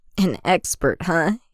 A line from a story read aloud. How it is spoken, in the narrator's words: Anakin chuckles